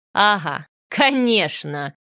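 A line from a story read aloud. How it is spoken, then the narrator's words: Venomous snort. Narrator (Russian): ядовито хмыкнул Гордеев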